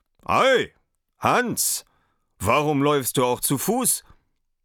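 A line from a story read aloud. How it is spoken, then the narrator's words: Call. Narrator (German): Der Reiter rief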